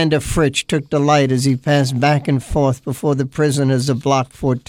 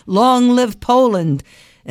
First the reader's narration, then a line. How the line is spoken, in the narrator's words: was joined by another sobbing